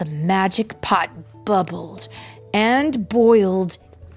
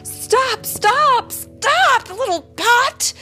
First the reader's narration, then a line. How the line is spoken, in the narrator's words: The mother shouted